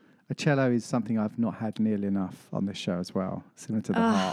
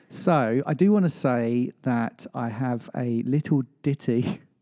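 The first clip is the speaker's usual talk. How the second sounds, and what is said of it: Put-on English accent. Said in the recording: “I'm saying it in my best English accent”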